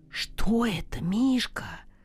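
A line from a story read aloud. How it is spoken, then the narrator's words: Whispered. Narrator (Russian): сказал я шепотом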